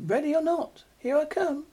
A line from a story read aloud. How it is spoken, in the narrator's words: Leo called out, though his voice wavered a little